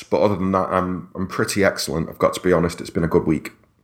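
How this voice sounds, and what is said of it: Slightly hoarse voice. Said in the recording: “A little hoarse”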